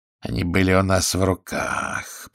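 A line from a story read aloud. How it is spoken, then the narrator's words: Grumbling mutter. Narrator (Russian): пробурчал Шлоссер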